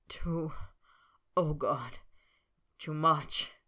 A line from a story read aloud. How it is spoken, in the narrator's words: Snape moaned